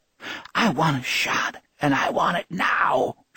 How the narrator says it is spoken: she croaked

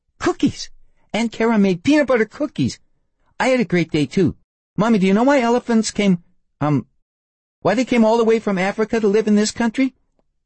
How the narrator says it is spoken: Marcy giggled

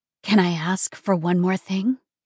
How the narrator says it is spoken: breathed

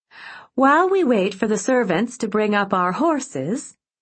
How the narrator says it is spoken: she said happily to her guests

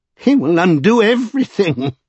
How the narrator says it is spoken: cried Norrell with a wild passion

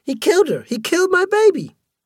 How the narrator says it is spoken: A black woman stood and cried

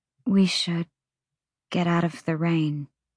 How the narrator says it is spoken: she murmured

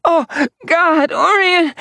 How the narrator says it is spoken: she gasped

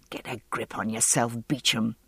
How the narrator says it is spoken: I muttered

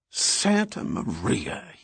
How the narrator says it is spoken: he hissed

